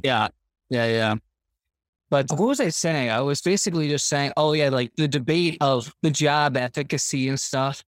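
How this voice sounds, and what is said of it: Canadian accent. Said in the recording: “I knew you were Canadian ... So I know Canadians. I know the accent.”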